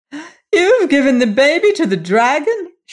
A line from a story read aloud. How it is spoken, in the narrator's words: she cried